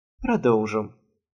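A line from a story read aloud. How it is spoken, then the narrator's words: Mutter. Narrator (Russian): пробормотал Лейфон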